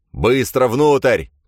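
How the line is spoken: Shouted. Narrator (Russian): крикнул им Грейлин

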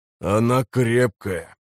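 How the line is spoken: Hoarse grumble. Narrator (Russian): проворчал тот, что с хриплым голосом

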